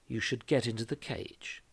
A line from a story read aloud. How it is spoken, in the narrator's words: murmured